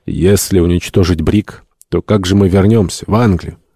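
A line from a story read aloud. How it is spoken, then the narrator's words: Calm voice. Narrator (Russian): Гатеррес овладел собой и, помолчав несколько минут, спокойным голосом сказал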